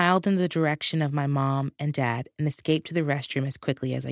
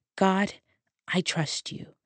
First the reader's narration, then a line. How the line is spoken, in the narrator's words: I whispered to myself